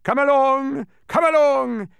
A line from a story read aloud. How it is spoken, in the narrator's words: he shouted from the dark hole